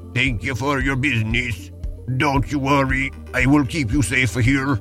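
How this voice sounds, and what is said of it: Badly done put-on accent. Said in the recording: “That is a horrible accent ... I think it's your worst one yet ... that is a tragic accent”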